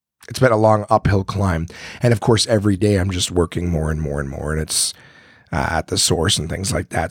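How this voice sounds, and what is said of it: Voice not fully recovered, worn. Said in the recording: “I'm sure you guys can hear in my voice that I'm still trying to recover from being sick ... I can't rest my voice in order to get it back ... I just don't have my voice back yet from all the coughing”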